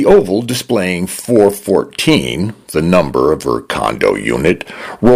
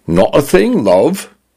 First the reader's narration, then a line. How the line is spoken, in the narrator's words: her condo said in a male British voice that leaned toward a Cockney accent